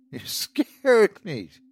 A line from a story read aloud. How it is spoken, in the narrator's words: she laughed